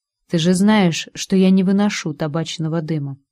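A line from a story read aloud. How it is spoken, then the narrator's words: Even voice. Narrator (Russian): произнес ровным голосом профессор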